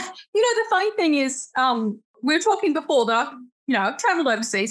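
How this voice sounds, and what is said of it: Australian accent. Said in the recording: “especially from Australia ... accent that you had, when I first heard it, I was like, oh my God, I love that accent.”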